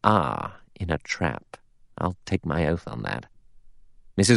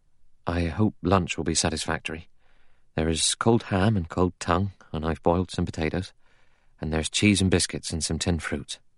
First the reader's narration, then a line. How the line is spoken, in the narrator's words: He said in a low, anxious voice